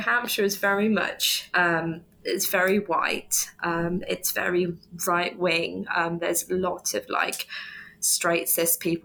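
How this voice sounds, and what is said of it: Southern English accent. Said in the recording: “this lovely southern accent that I do have”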